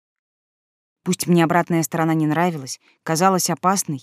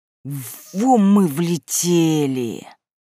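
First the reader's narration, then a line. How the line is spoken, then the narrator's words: Hissing. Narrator (Russian): прошипел Иван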